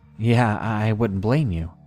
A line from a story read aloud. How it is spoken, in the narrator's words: nervously chuckled and just replied with